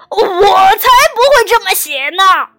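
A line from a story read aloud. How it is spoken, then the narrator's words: Roaring. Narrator (Chinese): 狮子大吼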